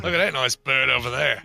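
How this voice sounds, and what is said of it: Put-on Australian accent. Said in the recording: “gone full Australian”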